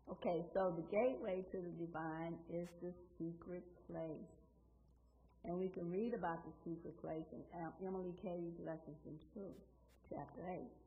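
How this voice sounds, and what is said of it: Hoarse, crackling voice. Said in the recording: “I'm a little hoarse this morning. I had some challenges with um, laryngitis ... that's why my voice, voice is kind of crackling this morning”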